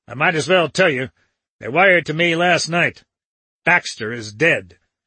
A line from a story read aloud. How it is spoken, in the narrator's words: snapped Dickinson